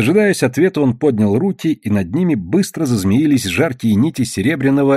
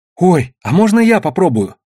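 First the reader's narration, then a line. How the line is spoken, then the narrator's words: Enthusiastic exclamation. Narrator (Russian): с энтузиазмом воскликнул Тоба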